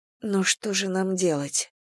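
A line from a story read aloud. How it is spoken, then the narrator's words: Sighing. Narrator (Russian): вздохнула она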